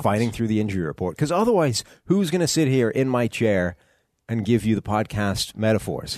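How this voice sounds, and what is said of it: Congested, slightly odd-sounding voice. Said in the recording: “if this sounds a little weird, I have a cold.”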